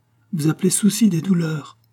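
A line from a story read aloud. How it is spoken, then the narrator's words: Majestic exclamation, queen. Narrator (French): s'écria majestueusement la reine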